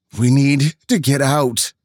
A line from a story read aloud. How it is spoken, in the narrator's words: Norma whimpered